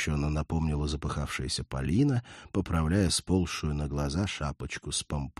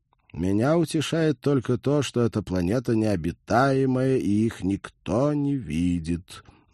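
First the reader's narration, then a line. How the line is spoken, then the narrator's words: Grim remark. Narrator (Russian): мрачно заметил Роджер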